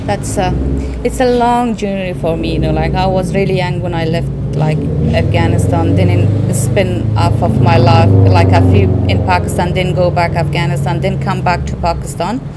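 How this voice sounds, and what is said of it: Afghan-accented English. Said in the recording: “Your accent is from where? ... I'm originally from Afghanistan.”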